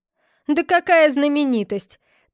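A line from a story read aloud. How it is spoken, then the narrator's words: Embarrassed laugh. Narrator (Russian): Тревор засмеялся ... от смущения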